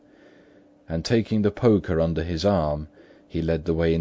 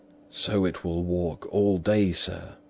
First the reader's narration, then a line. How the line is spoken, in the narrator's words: whispered Poole